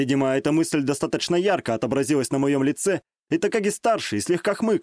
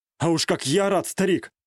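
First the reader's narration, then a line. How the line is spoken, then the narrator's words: Smirking reply. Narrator (Russian): хмыкнул я в ответ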